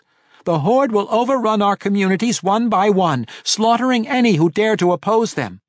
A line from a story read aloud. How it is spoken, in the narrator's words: Regis continued in the same urgent tones